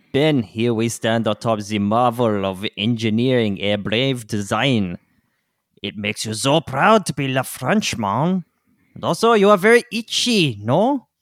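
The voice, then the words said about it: Put-on comic French accent. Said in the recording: “you know how I love accent work”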